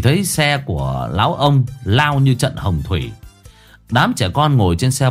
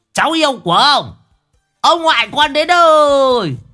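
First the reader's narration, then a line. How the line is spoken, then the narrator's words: Old man bellowing. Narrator (Vietnamese): mồm của lão gào lên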